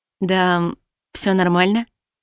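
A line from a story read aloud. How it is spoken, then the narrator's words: Uncertain reply. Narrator (Russian): ответила неуверенно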